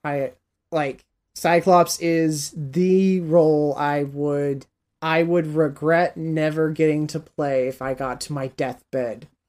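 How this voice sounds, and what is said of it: Worn-out, tired voice. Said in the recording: “My voice is worn out.”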